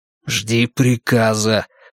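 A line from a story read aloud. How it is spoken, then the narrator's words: Hissed. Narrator (Russian): прошипел я на том же языке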